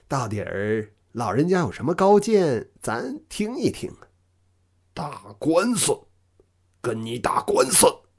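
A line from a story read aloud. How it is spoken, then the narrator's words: Smiling. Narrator (Chinese): 老张笑了笑，然后说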